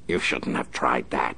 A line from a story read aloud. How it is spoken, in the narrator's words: he snarled